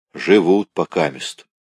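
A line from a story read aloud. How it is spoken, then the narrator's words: Plain. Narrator (Russian): ответил Спиридон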